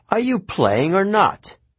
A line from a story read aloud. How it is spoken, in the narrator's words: D said impatiently